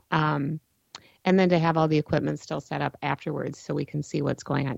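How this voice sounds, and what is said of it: Hoarse, strained voice. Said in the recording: “I am really losing my voice”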